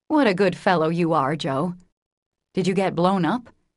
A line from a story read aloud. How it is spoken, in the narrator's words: he added, laughing